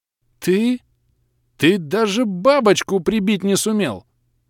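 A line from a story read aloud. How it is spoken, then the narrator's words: Forced out. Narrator (Russian): выдавил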